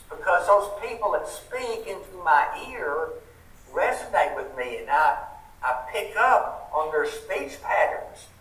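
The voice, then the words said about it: Southern US accent. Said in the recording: “I knew you were from the South. Thought maybe Texas or Alabama or Georgia ... because I could tell by your accent ... maybe it's because I say y'all too much”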